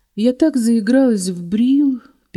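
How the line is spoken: Sad reply. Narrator (Russian): печально отозвалась она

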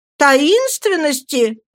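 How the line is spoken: Shout. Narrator (Russian): закричала Роза

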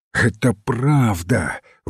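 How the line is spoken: Breathed out. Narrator (Russian): выдохнул

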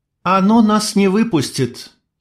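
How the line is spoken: Sighing. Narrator (Russian): вздохнула Майя

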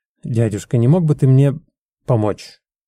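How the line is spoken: Mutter. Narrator (Russian): Он вновь пробормотал

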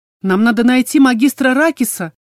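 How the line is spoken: Shouting over a roar. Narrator (Russian): заорала я в ответ, пытаясь перекричать громовой рев Ингара

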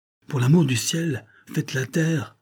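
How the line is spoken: Grandmother exclaiming, discouraged. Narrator (French): s'écria ma grand-mère un peu découragée

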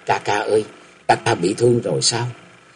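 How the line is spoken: Frightened, voice nearly breaking. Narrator (Vietnamese): nàng sợ hãi hầu như lạc giọng

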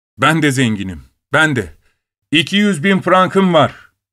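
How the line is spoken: Eager, suppressed inner exclamation. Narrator (Turkish): diye bağırmak isteğiyle yanıp tutuşuyordu

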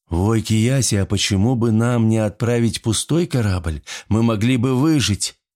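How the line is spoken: Cautious mumble. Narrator (Russian): аккуратно промямлил Плио

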